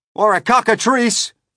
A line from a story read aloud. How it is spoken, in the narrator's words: yelled the chief of police